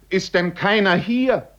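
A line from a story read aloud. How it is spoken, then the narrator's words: Shouting. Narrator (German): schrie jetzt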